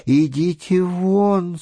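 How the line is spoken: Moaning. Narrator (Russian): стонала она

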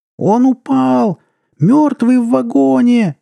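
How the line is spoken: Shrieking woman. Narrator (Russian): завизжала она

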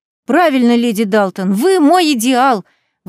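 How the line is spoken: Admiring exclamation. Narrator (Russian): восхищенно воскликнула Аннабет

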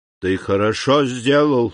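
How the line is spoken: Muffled old man's voice. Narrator (Russian): сказал старик глухим голосом

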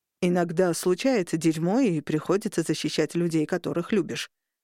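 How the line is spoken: Plain. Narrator (Russian): сказал Леон

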